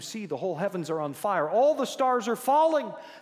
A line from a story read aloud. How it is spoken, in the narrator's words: Another exclaimed